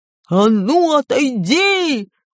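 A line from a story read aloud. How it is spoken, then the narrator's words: Yelled at brother. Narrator (Russian): заорал он на своего брата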